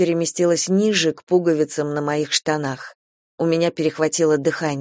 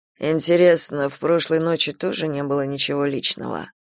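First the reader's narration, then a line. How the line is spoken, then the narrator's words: Muttered. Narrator (Russian): Пробормотал он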